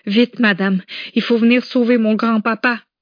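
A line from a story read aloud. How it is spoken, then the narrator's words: Breathless crying child shouting. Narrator (French): cria-t-elle à bout de souffle dont le visage était couvert de larmes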